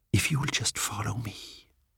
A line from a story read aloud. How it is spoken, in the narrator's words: he whispered